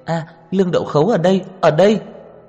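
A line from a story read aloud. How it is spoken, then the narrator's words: Excited schoolgirl shouting. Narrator (Vietnamese): Nữ sinh kia kích động hét lên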